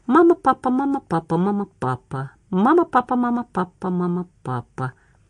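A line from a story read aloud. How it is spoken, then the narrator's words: Murmuring. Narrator (Russian): Она бормоча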